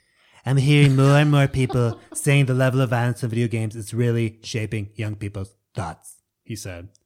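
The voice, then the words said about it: Imitates another person's voice. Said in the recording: “I'm very tempted to do it in a Trump voice ... you immediately started doing it.”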